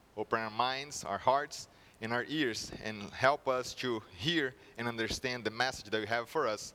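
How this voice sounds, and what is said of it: Brazilian Portuguese accent in English. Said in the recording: “the accent, it is from Brazil ... hopefully my accent is not strong or not that bad”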